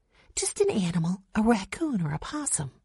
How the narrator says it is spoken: Jesse whispered to her

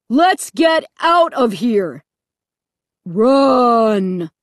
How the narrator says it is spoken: the deep voice boomed over the loudspeaker

